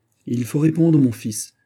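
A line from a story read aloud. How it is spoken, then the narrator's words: Exclaimed. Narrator (French): s'écria Anne d'Autriche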